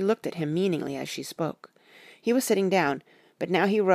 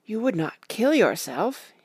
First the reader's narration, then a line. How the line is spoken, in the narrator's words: he asked hoarsely